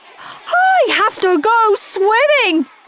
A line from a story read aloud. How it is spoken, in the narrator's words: screamed Lazy Linda